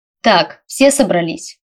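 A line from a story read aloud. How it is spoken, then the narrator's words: Loud question. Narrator (Russian): громко спросил мистер Саймон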